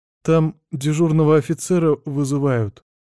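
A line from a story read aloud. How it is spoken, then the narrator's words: Uncertain reply. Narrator (Russian): неуверенно отвечает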